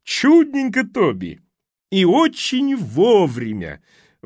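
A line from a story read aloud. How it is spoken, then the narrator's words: Booming joyful exclamation. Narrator (Russian): воскликнула она так громко, что ее радостный голос прокатился по ресторану, словно грохот от пушечного выстрела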